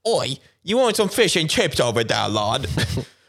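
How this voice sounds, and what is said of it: Attempted English accent sounding Australian. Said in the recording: “sound Australian. You don't sound English at all.”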